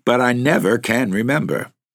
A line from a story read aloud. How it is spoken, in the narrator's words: she laughed out from the threshold